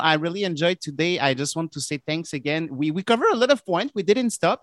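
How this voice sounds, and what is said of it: French Canadian accent. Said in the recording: “my French Canadian accent was understandable. ... It was okay.”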